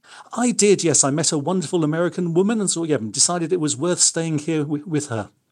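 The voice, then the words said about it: Non-American foreign accent. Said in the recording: “keep my accent ... that's a great accent”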